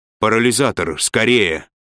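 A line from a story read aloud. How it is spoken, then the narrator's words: Exclaiming. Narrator (Russian): воскликнул Фаркосиган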